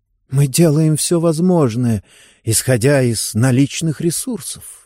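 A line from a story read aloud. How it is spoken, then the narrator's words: Sigh. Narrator (Russian): вздохнула Мэри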